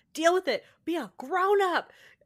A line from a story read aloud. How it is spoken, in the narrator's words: mom yells